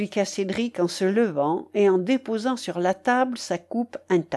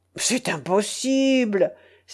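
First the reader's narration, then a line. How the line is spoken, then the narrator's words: Feigned astonished exclamation. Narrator (French): s'écria le prince Jean en feignant l'étonnement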